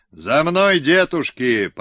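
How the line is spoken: Fiery shout. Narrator (Russian): огневым голосом закричал он

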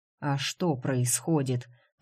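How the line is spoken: Mumbling. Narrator (Russian): пробормотал Вудс

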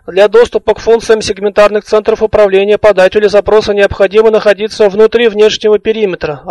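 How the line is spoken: Plain. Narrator (Russian): ответил Сфинкс

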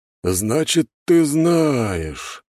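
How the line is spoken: Drawn-out. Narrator (Russian): протянул Владислав

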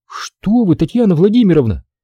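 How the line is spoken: Exclaimed. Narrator (Russian): воскликнул оператор аппарата УЗИ

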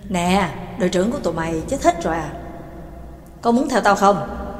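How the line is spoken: Smiling, very gentle. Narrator (Vietnamese): Gunzan mới cười cười với giọng hết sức hòa nhã

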